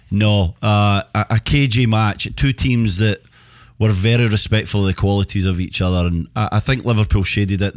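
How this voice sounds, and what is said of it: Speaker's own regional accent. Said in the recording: “It's my accent. That's everyone right. Will be like, what's he saying?”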